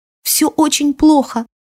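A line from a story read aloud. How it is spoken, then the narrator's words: Sobbing. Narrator (Russian): всхлипнула Алира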